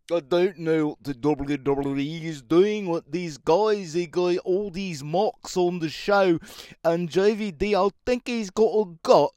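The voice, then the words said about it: Imitated Australian-sounding accent. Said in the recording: “Let's do the impression of this Australian guy. He talks sort of like,”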